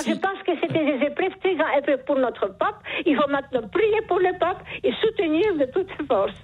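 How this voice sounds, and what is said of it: Charming noticeable accent. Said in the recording (French): “Vous avez un charmant accent ... ce joli accent”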